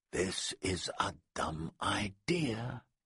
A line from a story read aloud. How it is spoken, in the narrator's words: Glenn whispered